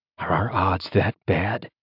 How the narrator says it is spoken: He asked quietly

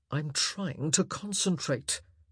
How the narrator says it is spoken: he added, rather in a grunt

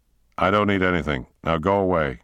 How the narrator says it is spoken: said Jackson firmly

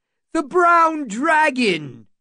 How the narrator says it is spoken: someone shouted

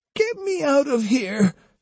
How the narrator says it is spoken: she pleaded

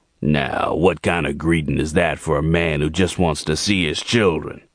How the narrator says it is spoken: he asked in that gravelly voice that Gerald hated

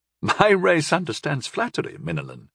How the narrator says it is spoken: she chuckled

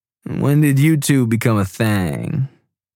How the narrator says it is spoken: Tripp asked, drawing out thang sarcastically

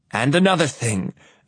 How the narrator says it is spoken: I yell

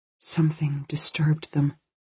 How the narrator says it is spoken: Kirsten said quietly, her mouth close to August's ear

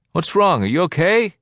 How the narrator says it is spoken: He shouted louder with his hands cupped around his mouth

